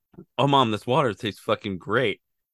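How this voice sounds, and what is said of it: Imitated child's voice. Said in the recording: “here's my impression of a kid back then”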